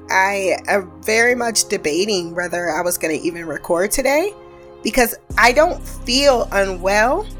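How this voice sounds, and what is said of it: Rough, unwell-sounding voice. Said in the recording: “I sound terrible. ... I cannot account for why my voice sounds the way it does.”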